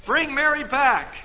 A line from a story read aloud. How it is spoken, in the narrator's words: Wally called out